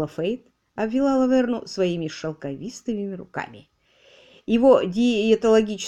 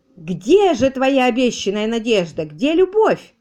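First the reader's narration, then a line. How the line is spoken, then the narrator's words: Wailing woman. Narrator (Russian): вопила его женушка-отступница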